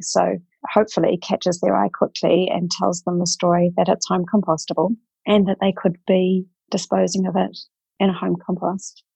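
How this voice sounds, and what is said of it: New Zealand accent. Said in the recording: “we can tell by accents, not North American. You are based in Zealand”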